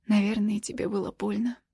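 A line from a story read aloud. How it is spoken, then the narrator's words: Quiet. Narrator (Russian): тихо говорю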